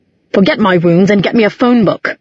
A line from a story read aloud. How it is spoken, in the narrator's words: he snapped